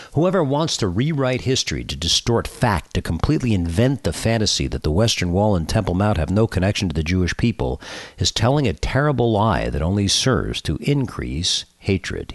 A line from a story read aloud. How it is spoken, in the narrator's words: he said